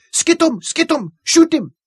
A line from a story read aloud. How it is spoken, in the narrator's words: heard his excited shrieks